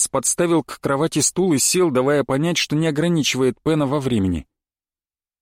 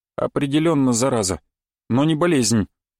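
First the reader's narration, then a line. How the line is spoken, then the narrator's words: Sighing. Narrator (Russian): вздохнул Лоренс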